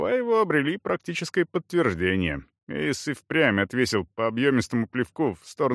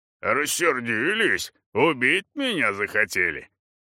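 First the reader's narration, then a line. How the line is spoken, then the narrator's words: Guffawed. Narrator (Russian): захохотал Эйс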